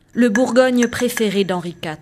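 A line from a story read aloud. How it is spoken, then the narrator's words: Old man, curt tone. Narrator (French): répondit le vieil homme d'un ton sec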